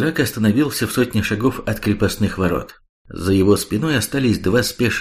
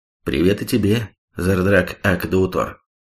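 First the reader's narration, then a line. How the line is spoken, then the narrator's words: Calm. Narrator (Russian): спокойно произнес тот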